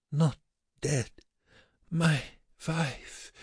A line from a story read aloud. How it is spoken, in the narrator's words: The Mussulman groaned, shook his head, and whispered